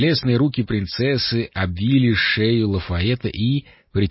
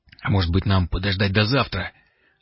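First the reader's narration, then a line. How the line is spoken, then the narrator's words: Hoarse voice. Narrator (Russian): Лафаэт с удивлением услышал свой собственный хриплый голос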